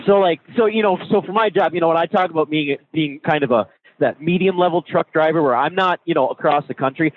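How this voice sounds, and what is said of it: Midwestern American accent. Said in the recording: “where in the Midwest are you from? Because I hear the accent.”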